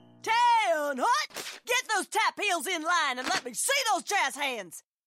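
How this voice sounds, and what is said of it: Barking drill instructor voice. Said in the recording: “my impression of a drill instructor directing a musical”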